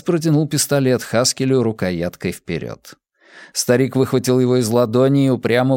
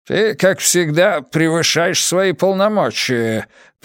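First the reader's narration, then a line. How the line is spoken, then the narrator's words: Male grumbling. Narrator (Russian): проворчал он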